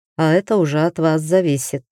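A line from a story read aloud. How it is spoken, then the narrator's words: Sighing. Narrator (Russian): вздохнул Дариан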